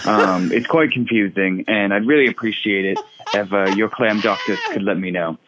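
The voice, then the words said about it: Put-on British accent. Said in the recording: “apologies for all of a sudden turning British during this call ... letting your accent slip”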